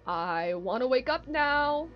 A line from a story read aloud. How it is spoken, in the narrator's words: he yelled